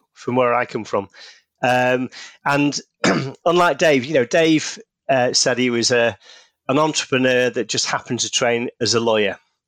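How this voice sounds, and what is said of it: Northern English Manchester accent. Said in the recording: “You can probably tell from the accent. Based in the UK, in the north of England, in Manchester.”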